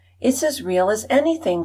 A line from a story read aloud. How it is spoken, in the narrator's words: cried Flossie in delight